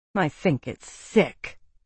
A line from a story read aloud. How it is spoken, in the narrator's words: Violetta muttered